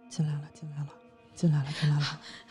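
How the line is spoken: Muttering. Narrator (Chinese): 妈妈嘴里就开始嘟囔着

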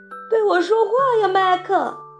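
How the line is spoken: Calling out. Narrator (Chinese): 迪维太太叫道

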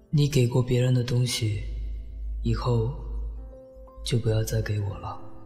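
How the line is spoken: Flat, calm. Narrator (Chinese): 淡淡的说

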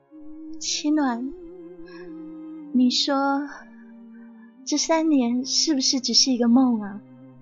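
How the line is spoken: Soft, helpless murmur. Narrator (Chinese): 韦小无奈的叹了口气，轻声呢喃道

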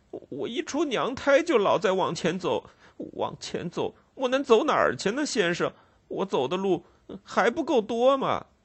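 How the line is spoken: Crying boy. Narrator (Chinese): 那男孩 哭着说

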